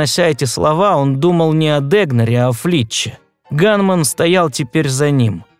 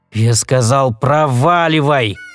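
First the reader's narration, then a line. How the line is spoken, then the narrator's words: Growling. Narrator (Russian): прорычал Сэм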